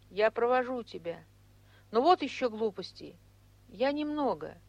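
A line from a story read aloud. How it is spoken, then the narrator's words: Very timid. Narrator (Russian): Он остановился и очень робко сказал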